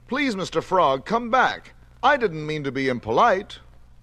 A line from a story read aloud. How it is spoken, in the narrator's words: cried Tubby